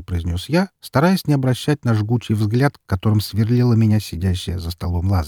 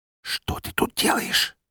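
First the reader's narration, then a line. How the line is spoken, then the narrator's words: Barely audible whisper. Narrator (Russian): Едва слышно прошептала она мне в ухо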